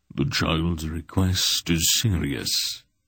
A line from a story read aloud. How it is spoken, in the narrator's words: he said gravely